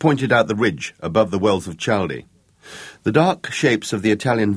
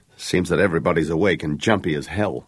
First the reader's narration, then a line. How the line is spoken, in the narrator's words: Jake remarked dryly